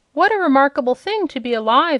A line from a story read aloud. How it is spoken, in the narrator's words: exclaimed Dorothy